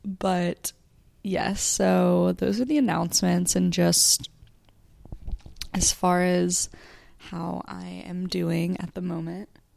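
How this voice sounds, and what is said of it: Strained, fading voice. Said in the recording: “I feel like I'm kind of losing my voice”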